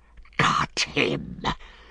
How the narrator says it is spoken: hissed Gollum in his ear

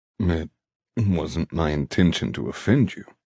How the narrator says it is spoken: he murmurs

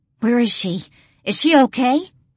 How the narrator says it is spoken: ask frantically

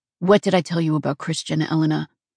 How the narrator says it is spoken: His voice was low and calm, but it carried a deadly edge

